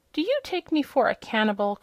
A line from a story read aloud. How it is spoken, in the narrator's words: cried the hen indignantly